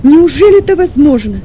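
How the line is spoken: Sick man's near-shout, moaning. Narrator (Russian): почти с криком произнес больной и громко застонал

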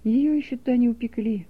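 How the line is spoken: Calm male voice. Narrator (Russian): спокойно сказал Лебедев

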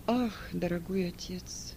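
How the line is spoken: Moan. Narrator (Russian): простонал Марк

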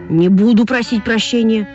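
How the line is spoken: Shouting. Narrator (Russian): закричал Вася

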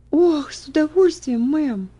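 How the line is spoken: Joyful girl's exclamation. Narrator (Russian): воскликнула девочка, и глаза ее радостно засверкали

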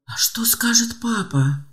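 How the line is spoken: Whisper. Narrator (Russian): прошептал

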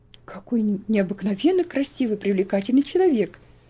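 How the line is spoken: Quiet remark from a lady. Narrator (Russian): заметила тихо леди

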